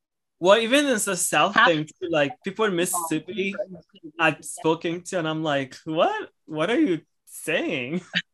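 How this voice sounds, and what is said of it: Thick Louisiana Creole accent. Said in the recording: “your accent, because it seemed familiar... Oh, it's super thick.”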